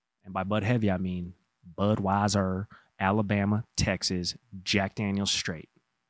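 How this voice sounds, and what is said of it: Put-on Southern accent. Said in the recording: “Was that your Southern accent? It was.”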